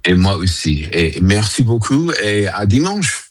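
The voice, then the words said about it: Slight foreign accent in French. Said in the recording (French): “ce petit accent quand il dit merci beaucoup”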